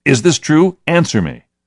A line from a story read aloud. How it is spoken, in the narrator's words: the centurion shouted